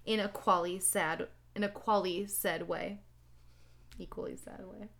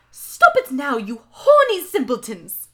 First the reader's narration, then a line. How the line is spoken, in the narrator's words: shouted Professor McGoogle